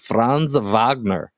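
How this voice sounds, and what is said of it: Put-on German accent. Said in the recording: “rate my German impression ... I'd give it a solid 7 out of 10 ... that accent”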